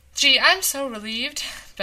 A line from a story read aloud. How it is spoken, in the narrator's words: Beth said happily